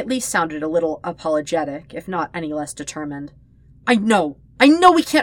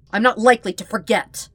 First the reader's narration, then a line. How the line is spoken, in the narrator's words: Hakoda snarled